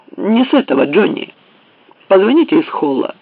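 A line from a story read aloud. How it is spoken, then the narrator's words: Sharp. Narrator (Russian): Таузер резко сказал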